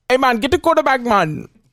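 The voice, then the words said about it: Put-on Jamaican English accent. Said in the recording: “he's talking like this... a guy with an accent... it's half like Jamaican. It's like a Jamaican English.”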